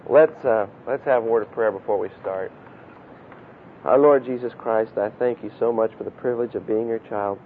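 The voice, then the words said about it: Unusually low, strained voice. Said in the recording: “my voice has got a little lower... It just sounds funny”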